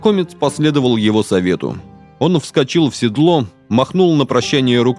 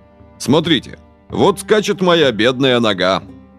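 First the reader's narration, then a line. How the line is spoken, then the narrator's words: Mocking recitation. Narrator (Russian): насмешливо продекламировал Жан-смельчак, подражая футуристам из Орфея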